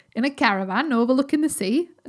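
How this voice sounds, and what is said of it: Put-on Cornwall-style accent. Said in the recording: “I don't know if that's a Yorkshire accent. That's more like a Cornwall accent.”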